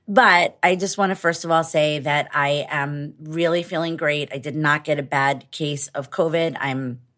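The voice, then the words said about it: Hoarse, congested voice. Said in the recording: “my voice is a little bit hoarse and I'm a little bit congested”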